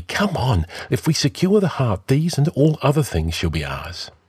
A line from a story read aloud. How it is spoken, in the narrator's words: But the Nemedian answered impatiently